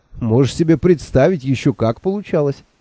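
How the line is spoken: Laughing. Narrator (Russian): сквозь смех выговорил я

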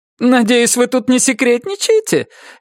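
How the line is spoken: Cheerful. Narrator (Russian): весело сказала Вера

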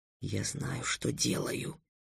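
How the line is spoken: Whispered reply. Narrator (Russian): шепотом ответил Трикс

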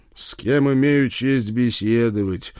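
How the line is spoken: Dull, gloomy drawl. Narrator (Russian): уныло протянул я

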